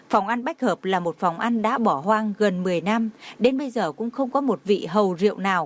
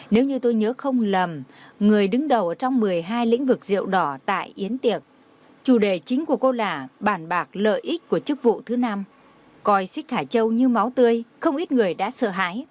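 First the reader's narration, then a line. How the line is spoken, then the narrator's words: Smiling, teasing. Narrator (Vietnamese): Trang Tĩnh Vũ mỉm cười trêu chọc nói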